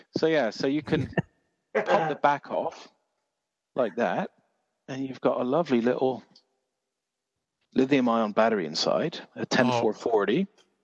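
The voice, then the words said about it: English regional accent, Dorset. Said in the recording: “Your accent's from Jersey, isn't it? ... From Dorset.”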